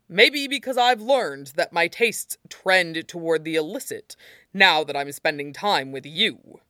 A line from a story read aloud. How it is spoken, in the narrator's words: Toshinori said with a chuckle, brimming with a warm smugness